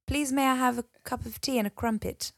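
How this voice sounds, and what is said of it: Attempted posh English accent. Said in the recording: “I can't do a posh accent ... What is a posh accent? ... just speak properly. The Queen English. Go on then. Try.”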